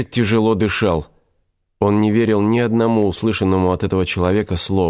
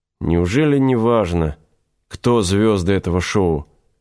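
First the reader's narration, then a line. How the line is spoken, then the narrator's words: Weary surprise. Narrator (Russian): устало удивился Игорь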